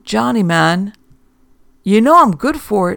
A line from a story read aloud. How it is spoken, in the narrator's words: Herman pleaded